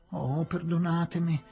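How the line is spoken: Whimpering. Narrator (Italian): piagnucolava

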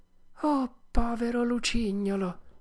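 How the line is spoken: Half-voiced, tearful. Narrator (Italian): disse Pinocchio a mezza voce

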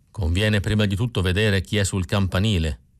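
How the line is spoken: Plain. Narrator (Italian): mi rispose Berardo

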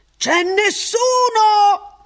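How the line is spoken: Shouting, almost chattering. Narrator (Italian): Ransom gridò, stavolta quasi garrulo

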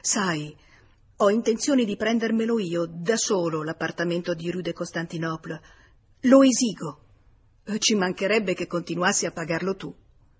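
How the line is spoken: Stammering, slightly embarrassed. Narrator (Italian): balbettò un poco imbarazzato

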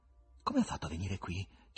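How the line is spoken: Whispered question. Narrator (Italian): chiese Ivan in un sussurro

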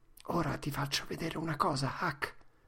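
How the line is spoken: Said quietly. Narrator (Italian): Tom disse sottovoce

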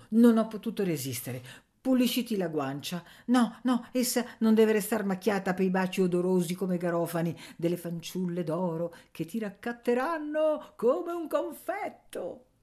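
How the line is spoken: Stammering. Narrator (Italian): balbettò Nanna

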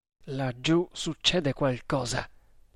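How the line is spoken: Uneasy muttering. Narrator (Italian): borbottò il Maharatto, inquieto

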